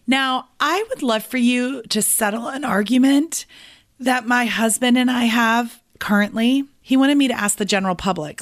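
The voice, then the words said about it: Voice sounds off, unwell. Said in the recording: “Please forgive my voice today. You guys, my entire family got sick over Thanksgiving ... They got colds.”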